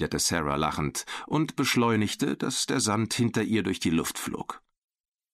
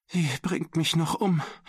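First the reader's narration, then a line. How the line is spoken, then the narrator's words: Whimpering. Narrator (German): wimmerte Mac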